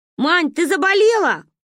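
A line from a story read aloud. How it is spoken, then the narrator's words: Shout. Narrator (Russian): крикнула Каринка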